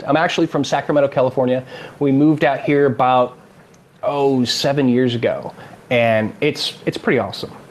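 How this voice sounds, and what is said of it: American California accent. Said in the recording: “I apologize for anyone who's expecting an Australian accent ... here I'm exotic because I have that California accent”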